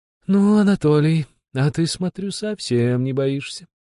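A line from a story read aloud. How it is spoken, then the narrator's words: Drawling. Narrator (Russian): протянула Глафира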